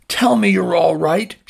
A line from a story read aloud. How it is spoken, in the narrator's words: cried